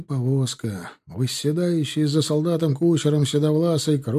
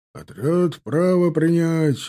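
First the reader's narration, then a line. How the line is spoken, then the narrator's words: Barked. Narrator (Russian): рявкнул Назимов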